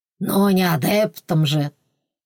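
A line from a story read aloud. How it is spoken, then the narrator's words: Deep bass chuckle. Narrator (Russian): Басовито хохотнул Н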